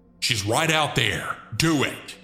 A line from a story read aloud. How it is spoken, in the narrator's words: the woman loudly say